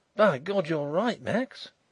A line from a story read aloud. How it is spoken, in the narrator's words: he exclaimed